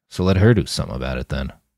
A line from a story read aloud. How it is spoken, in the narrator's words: Roland muttered